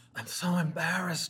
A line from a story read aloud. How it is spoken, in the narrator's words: she whispers, wheezing